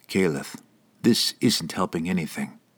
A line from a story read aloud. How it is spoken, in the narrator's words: he said gently